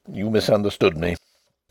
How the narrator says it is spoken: said Denry gruffly

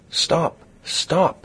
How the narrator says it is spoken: cried a female voice

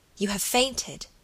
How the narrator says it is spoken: said the lady in an awestruck voice

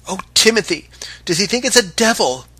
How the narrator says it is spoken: cried the boatswain's mate in a voice that even the Canadian must have heard

